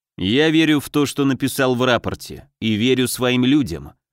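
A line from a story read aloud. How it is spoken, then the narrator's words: Cold. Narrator (Russian): холодно отозвался Гагарин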